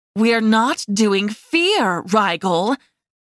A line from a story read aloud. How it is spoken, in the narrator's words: she snarled